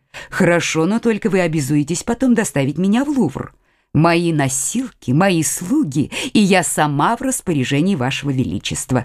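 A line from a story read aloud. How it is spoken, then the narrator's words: Plain. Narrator (Russian): ответила герцогиня Неверская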